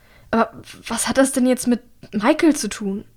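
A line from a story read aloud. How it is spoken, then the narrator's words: Stammering. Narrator (German): stammelt sie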